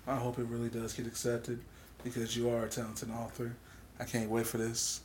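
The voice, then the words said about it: Soft whispery ASMR-style voice. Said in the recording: “As a person that's speaking in this ASMR voice.”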